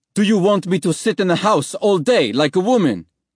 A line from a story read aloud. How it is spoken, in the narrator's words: he shouted back